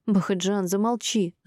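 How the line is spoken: Pleading landlady. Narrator (Russian): взмолилась хозяйка квартиры

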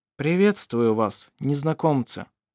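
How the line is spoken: Calm. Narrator (Russian): спокойно сказал он

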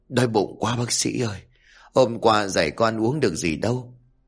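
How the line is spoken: Sudden whisper. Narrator (Vietnamese): Bỗng bệnh nhân liền thì thầm

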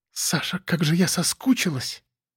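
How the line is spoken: Whisper in ear. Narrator (Russian): Прошептала она мне на ухо

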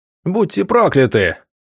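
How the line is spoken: Big man yelling. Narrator (Russian): заорал здоровяк на едином

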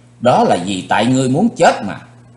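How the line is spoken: Loud angry shout. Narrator (Vietnamese): Chí Tôn dựng ngược cặp lông mày lưỡi kiếm, chàng quát lớn

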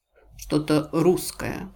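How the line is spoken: Muttered. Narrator (Russian): пробормотала мисс Марпл

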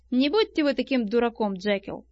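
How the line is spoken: Plain. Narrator (Russian): сказал Аттерсон

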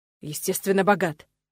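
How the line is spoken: Irritated reply. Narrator (Russian): раздраженно отозвался Нолан

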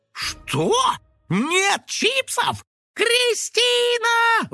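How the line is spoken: Indignant, house-filling yell. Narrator (Russian): возмущенно завопил Финик на весь дом

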